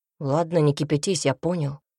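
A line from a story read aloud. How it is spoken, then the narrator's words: Grumbled. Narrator (Russian): буркнул Альберт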